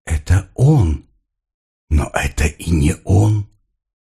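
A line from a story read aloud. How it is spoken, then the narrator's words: Whispering voice. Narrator (Russian): Как будто чей-то голос нашептывал ей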